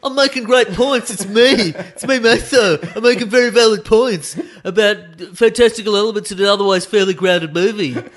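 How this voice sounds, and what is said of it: Impression of a fellow host. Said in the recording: “good impression of me. That's a fantastic impression of you doing an impression of me”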